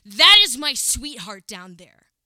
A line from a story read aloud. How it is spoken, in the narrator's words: he was crying, told me in a piercing tone